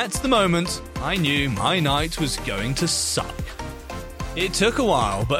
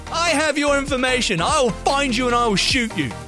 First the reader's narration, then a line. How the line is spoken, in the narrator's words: The dude loses his shit even more and yells back